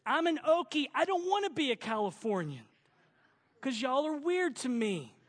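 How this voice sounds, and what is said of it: Southern American accent. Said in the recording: “let me preach with my southern accent, y'all.”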